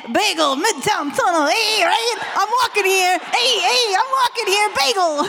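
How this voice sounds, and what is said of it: Put-on exaggerated New York accent. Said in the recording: “as the only New Yorker on the stage, could you give us a taste of the dad's accent ... Could you please like New York get us?”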